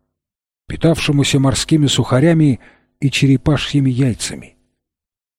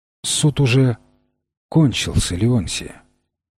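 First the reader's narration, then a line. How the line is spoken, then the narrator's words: Quiet, tender, mournful. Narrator (Russian): сказал Торрес тихо и нежно, словно говорил про покойника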